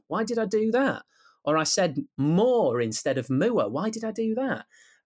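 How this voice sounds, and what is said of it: Teesside English accent. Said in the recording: “I'm very proud of my accent.”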